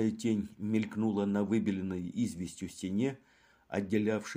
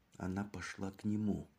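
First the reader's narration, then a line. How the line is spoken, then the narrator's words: Agitated whisper. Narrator (Russian): прошептал Леруа, не в силах справиться с охватившим его волнением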